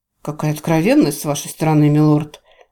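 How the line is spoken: Sarcastic sigh. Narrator (Russian): вздохнул Моран, не скрывая сарказма

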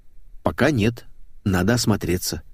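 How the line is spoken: Calm. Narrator (Russian): спокойно ответил я

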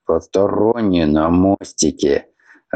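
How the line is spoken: Angry growl. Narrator (Russian): Рыкнул старший помощник, крайне раздосадованный

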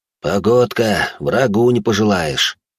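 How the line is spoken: Sighing. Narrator (Russian): вздохнул Францев

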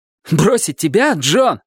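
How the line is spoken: Exclaiming. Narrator (Russian): воскликнул он

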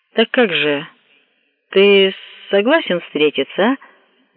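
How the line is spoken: Feigned casual question. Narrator (Russian): нарочито беспечным тоном спросил Йосимура

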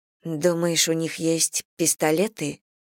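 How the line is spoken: Frightened whisper. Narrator (Russian): испуганно прошептала Селия

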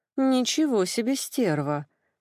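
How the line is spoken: Breathless involuntary exclamation. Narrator (Russian): Против воли выдохнула я

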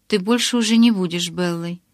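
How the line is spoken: Plain. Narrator (Russian): сказал он

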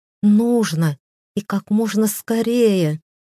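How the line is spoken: Loud moan. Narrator (Russian): не сдержалась, громко простонала

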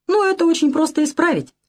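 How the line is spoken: Cheerful. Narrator (Russian): весело сказал я

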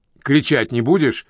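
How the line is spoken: Irritated question. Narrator (Russian): раздраженно спросила Джонет

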